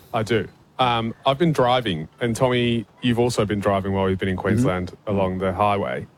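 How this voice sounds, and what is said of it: English accent. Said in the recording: “hails originally from England. That's why his voice sounds a bit funny.”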